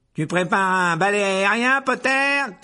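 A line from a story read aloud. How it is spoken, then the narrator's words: Mocking shout. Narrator (French): cria Malfoy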